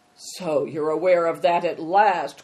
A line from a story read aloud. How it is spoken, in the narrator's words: growled Greencoat